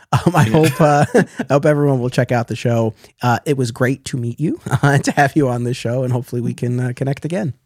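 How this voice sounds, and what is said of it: Hoarse, strained voice. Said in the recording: “it's 2.5 hours. I'm losing my voice.”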